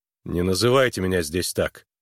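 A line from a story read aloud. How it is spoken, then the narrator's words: Stern warning. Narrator (Russian): строго предупредил Харлан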